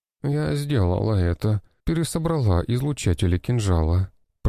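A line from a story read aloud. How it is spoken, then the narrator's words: Moan. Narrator (Russian): простонала та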